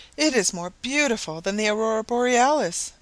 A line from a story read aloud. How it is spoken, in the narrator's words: exclaimed Mrs